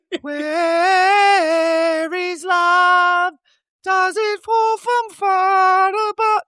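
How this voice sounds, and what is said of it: Singing in falsetto. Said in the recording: “That was very good. Little falsetto there.”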